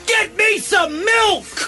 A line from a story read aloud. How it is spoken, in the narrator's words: the evil character shouting